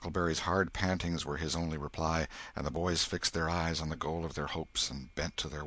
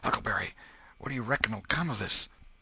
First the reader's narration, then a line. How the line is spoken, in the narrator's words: Tom whispered